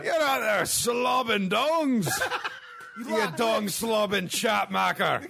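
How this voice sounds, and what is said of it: Put-on Scottish accent character voice. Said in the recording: “Scottish homophobe is my new favorite character”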